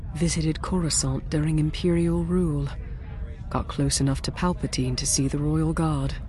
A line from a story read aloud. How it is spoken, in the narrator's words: Ransom murmured